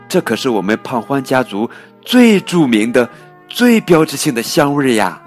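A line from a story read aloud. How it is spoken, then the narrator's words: Giggling. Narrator (Chinese): 菲菲咯咯的笑着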